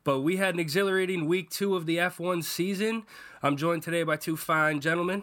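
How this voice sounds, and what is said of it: Slightly off, sick-sounding voice. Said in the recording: “apologize for my voice being a little off today. I'm getting over having a viral infection”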